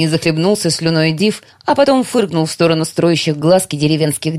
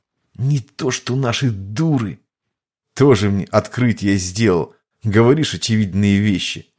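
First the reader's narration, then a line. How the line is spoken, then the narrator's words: Displeased grumble. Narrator (Russian): Недовольно проворчал Локоп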